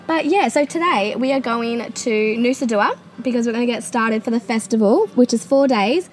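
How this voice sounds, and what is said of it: Strained, struggling sick voice. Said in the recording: “my voice is, as you can tell, struggling so, so bad”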